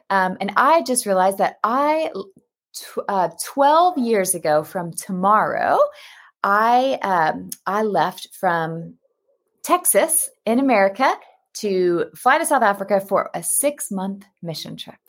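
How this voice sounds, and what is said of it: American accent. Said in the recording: “you can hear by my accent, though, I'm American.”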